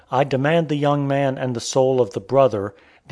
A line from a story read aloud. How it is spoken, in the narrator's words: the old man, groaning deeply and at the same time bursting into tears, said